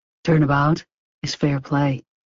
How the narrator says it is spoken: he said quietly

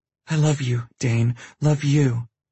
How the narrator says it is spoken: she pants out

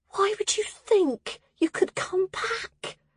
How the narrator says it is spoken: Hesse whispered

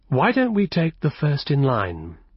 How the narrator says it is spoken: he suggested in a reasonable tone

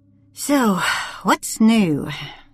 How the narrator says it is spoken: she muttered to herself

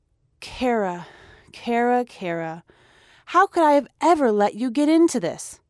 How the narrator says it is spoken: He breathed out

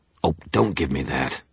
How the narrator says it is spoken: I snapped

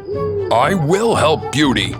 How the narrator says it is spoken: the beast roared

